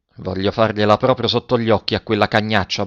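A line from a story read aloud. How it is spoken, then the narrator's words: Muttering. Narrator (Italian): borbottava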